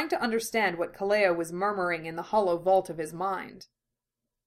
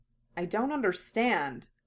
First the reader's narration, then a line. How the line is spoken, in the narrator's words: Ed murmured